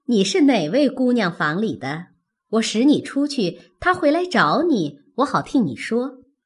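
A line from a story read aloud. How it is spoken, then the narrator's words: Laughing. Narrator (Chinese): 凤姐笑道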